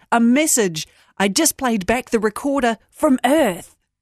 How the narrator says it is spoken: he yelled

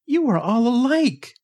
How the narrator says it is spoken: cried

